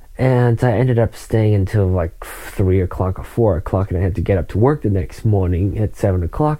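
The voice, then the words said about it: Sleepy, low-energy voice. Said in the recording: “I'm kind of sleepy right now too. I'm sure you can tell from my voice, not as excited as I usually am.”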